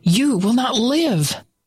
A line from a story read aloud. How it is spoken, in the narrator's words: shouting over and over